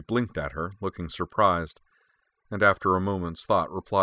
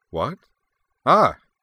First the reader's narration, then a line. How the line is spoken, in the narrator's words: Asselin blurted